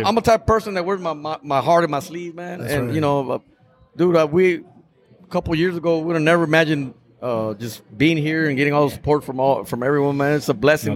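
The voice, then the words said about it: Choked-up, emotional voice. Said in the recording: “my voice is fucking... He's getting all choked up.”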